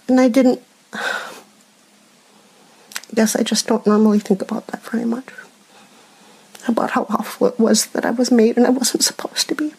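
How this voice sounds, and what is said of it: Emotional, teary voice. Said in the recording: “I'm getting emotional again... All cry now.”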